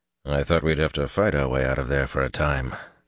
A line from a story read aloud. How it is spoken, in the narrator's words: Elias murmured at Perrin's shoulder